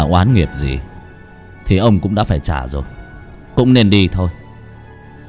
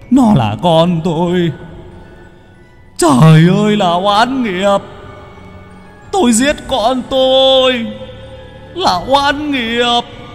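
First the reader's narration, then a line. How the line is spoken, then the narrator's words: Wailing, sobbing man. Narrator (Vietnamese): Người đàn ông gào khóc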